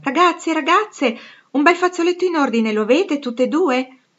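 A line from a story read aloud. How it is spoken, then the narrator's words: Shout from window. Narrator (Italian): una voce da una finestra gridò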